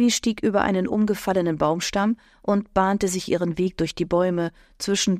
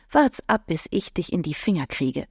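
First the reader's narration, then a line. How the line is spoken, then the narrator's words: Mumbling. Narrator (German): nuschelte sie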